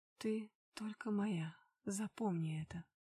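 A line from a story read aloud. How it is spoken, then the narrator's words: Slightly hoarse whisper. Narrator (Russian): Чуть хрипло шепнул в мои губы он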